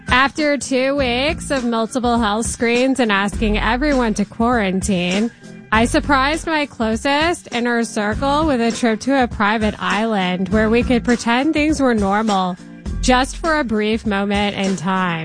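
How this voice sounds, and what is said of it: Imitates another person's voice. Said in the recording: “I will do my best Kim Kardashian West impression”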